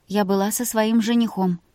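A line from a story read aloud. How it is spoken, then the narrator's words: Obedient confirmation. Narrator (Russian): послушно подтвердила она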